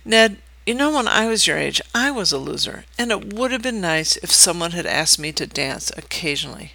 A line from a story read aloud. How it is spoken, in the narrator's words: I said quietly